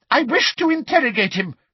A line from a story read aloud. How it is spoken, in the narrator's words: shouted Umbridge angrily